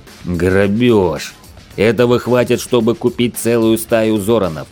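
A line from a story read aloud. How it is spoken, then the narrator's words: Angry growl. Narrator (Russian): гневно зарычал бычара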